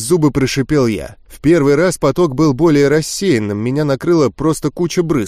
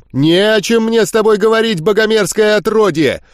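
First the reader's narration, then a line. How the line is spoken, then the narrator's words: Shouting. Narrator (Russian): Закричал он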